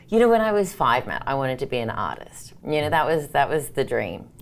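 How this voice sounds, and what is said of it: Australian accent. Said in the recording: “I'm originally from Sydney, Australia, so that's the funny accent people probably notice along the way”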